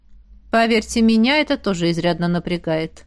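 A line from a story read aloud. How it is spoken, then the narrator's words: Grim smirk. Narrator (Russian): мрачно усмехнулся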